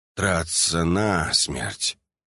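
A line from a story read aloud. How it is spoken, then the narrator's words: Drawled. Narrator (Russian): протянул я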